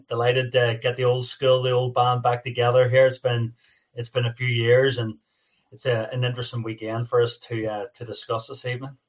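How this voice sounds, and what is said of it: North American-tinged accent. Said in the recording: “The, uh, the, North American accent is absolutely it's, outstanding ... What's that accent all about? ... you've definitely got an accent”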